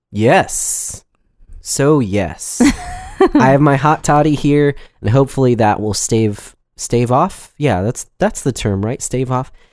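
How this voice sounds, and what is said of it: Congested, more nasal voice. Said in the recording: “my coughs and my sniffles ... I'm a little bit more nasally than I usually am”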